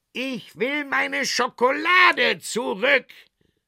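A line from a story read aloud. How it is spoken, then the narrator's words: Chocolate maker calling out. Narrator (German): rief der Schokoladenmacher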